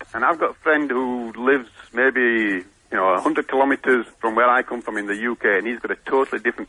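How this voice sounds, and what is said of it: Yorkshire English accent. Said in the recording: “I've got a Yorkshire accent”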